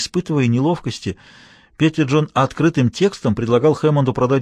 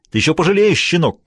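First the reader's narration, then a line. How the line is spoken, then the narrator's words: Shouting. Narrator (Russian): крикнул он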